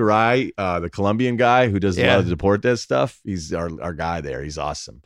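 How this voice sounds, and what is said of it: Usual voice. Nothing is said of it.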